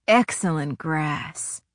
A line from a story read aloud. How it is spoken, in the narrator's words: he murmured back